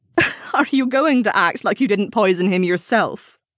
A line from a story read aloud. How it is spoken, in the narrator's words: Rosemary scoffed